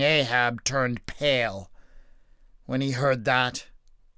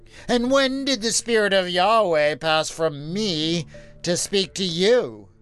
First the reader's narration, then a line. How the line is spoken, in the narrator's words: He asked haughtily